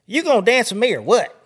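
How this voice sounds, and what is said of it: Put-on hillbilly accent. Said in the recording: “Oh, hillbilly accent.”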